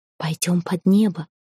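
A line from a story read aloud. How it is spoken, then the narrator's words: Breathless whisper. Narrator (Russian): когда уже дыхания не хватило, Эрелив шепнул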